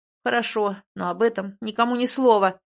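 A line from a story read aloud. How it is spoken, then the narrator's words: Menacing growl. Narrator (Russian): грозно рыкнул нам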